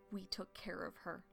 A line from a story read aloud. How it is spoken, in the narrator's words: Stormfur says bitterly